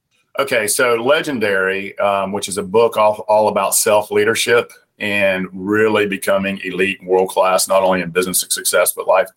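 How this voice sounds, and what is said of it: Southern American accent. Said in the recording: “I hope my Southern accent doesn't bother you”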